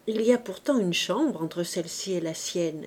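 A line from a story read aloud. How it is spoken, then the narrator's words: Gentle explanation. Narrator (French): expliqua doucement Trublot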